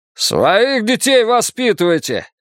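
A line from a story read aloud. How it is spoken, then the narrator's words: Angry bark. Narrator (Russian): рявкнул Джерри Райс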